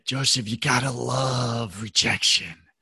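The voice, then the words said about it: Imitates another person's voice. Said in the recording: “How's my impersonation? Am I doing all right?”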